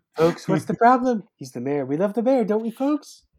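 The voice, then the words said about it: Put-on mayor character accent. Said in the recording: “Don't use that voice... that accent”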